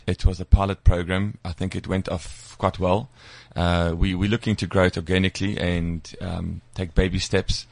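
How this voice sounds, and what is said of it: Polish accent. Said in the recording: “your accent has not got any better in the last year. ... It's got worse. ... you become more Polish.”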